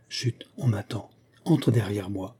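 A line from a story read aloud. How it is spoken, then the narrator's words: Low voice. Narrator (French): à voix basse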